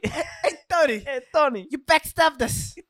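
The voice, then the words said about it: Put-on Italian accent. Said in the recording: “they do a fucking Italian accent on you ... it's hard to do an Italian accent”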